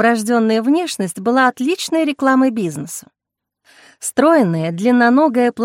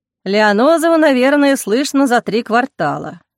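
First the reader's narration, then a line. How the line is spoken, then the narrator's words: Snorting chuckle. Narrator (Russian): хмыкнул он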